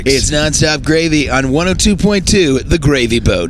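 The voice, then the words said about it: Radio DJ announcer voice. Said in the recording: “do the radio voice.”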